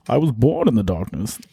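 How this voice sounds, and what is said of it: Bane character voice impression. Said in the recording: “do my Bane impression ... It's not that bad. It's all right.”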